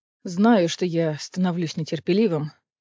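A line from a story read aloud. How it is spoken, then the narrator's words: Breathed out. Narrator (Russian): выдохнул Кассиан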